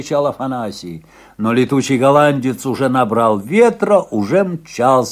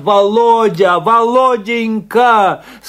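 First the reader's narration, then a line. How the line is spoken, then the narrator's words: Tearful shouting. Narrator (Russian): сквозь слезы кричала она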